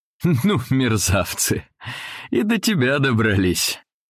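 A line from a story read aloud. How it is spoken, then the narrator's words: Father's laughing exclamation. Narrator (Russian): отец вдруг засмеялся и воскликнул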